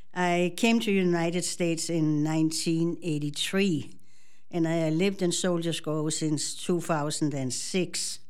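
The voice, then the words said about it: Danish accent in English. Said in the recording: “I'm original from Denmark, so if I have a funny accent, that's why ... I still speak funny”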